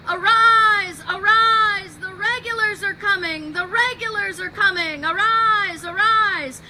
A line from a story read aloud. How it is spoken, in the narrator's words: he's screaming ... screaming at the top of his lungs